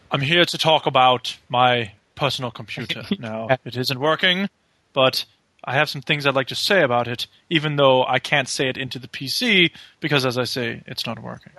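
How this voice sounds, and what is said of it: Comic Monty Python-style character voice. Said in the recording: “play random Monty Python clip ... I thought that was quite a good impression. It was good.”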